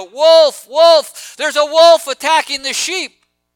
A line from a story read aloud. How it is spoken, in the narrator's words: he cried out